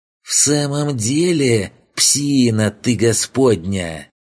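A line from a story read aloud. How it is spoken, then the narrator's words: Near hiss. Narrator (Russian): Почти прошипел тот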